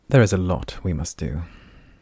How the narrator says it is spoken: the Dayan sighed sharply

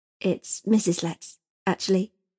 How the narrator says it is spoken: Eliza corrected quietly

